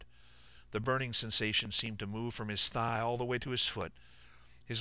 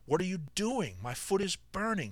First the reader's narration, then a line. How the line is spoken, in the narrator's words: cried